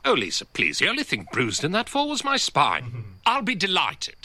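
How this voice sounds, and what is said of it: Very posh upper-class English accent. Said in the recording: “He does have a very posh accent ... it is a very upper class accent.”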